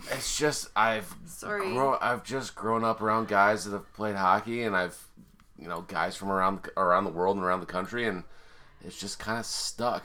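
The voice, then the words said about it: Hockey player style accent. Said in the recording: “Where does this accent come from? Is it just a hockey thing?”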